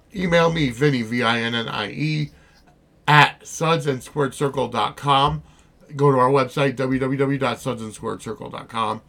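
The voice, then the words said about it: Sick, rough-sounding voice. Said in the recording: “sorry about my voice. I've been under the weather for about a week”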